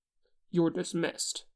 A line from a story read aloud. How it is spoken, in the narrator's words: Hyunchik says sharply